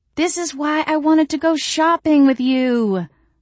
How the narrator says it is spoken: I cried … with the boneless petulance of a teenage orthodontia patient

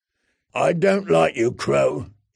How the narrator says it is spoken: he growled

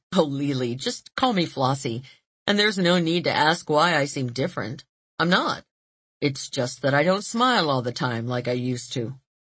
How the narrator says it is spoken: She laughed gleefully, saying

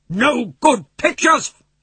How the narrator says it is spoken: he shouted

